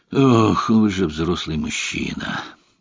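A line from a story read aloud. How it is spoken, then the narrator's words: Sigh. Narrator (Russian): Вздохнул Ромейн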